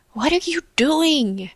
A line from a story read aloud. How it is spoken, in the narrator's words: She whispered